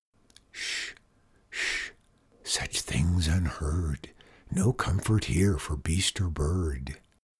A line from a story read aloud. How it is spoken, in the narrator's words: rustling voices seemed to whisper